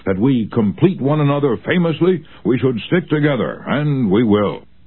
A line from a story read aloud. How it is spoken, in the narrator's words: he exclaimed with enthusiasm